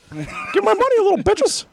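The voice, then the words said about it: Cartoon character voice impression. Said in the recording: “Those might actually be the funniest South Park impersonations.”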